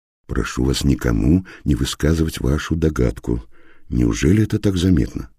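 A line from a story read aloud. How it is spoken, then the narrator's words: Lowered to a whisper. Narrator (Russian): Понизив голос до шепота, он произнес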